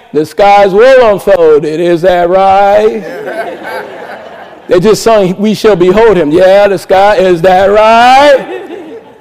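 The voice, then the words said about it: Imitates a preacher's voice. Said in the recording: “my imitation”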